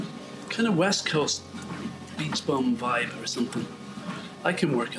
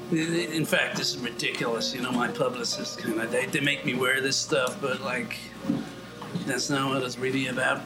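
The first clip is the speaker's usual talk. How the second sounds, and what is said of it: Unidentified put-on accent. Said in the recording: “I don't know what accent I'm doing there. I don't want to speak like me”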